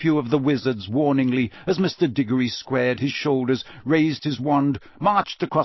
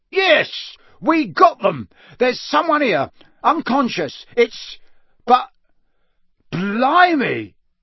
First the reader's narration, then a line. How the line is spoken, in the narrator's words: Diggory shout